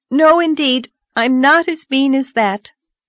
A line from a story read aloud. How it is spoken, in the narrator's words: exclaimed Anne